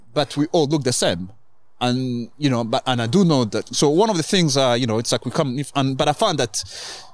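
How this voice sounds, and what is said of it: Mixed Rwandan, French, Kenyan accent. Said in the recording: “I speak the way I speak, you know, with like Rwandan, French, Kenyan, blah blah blah accent ... four accents mixed into one”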